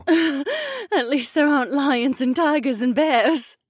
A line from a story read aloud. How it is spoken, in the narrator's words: Becca laughed, and her pretty face looked relieved